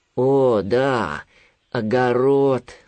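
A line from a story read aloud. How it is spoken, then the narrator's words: Sighing. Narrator (Russian): вздохнул Винни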